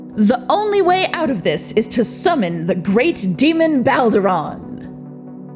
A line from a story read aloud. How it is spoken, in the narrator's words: They loudly proclaimed